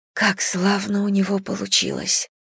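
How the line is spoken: Whisper. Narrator (Russian): прошептала она

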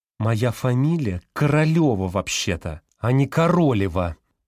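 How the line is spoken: Female through clenched teeth. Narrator (Russian): процедила женщина сквозь зубы

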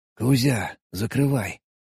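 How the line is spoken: Whisper over radio. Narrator (Russian): прошептал я в рацию

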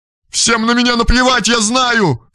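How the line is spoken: Shouting. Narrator (Russian): кричала она

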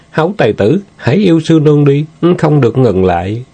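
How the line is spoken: Moaning. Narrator (Vietnamese): Sư nương rên rỉ nói

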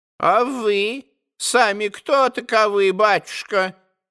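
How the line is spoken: Old woman, changed voice. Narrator (Russian): Совсем другим голосом проговорила старушонка

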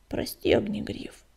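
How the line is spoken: Reluctant mumble. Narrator (Russian): нехотя пробормотал он

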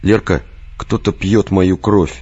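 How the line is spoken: Sad, resigned. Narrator (Russian): грустно и обреченно произнес Виктор

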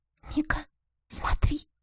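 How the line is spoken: Whisper. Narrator (Russian): прошептала Лиля

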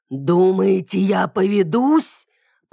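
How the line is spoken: Growled. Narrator (Russian): прорычала я

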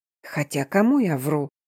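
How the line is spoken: Exasperated mutter to self. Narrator (Russian): в сердцах пробормотала себе под нос

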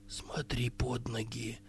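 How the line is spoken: Whisper. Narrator (Russian): прошептал Керик

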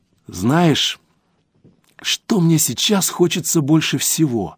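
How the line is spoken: Quiet question. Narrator (Russian): тихо спросила Мидори

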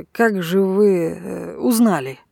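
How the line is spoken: Muttering. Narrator (Russian): пробормотал

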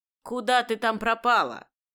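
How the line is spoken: Menacing shout. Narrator (Russian): грозно прикрикнула на нее Бадрия Ханум

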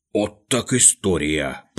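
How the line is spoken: Mumbled. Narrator (Russian): пробормотал Шпунтик

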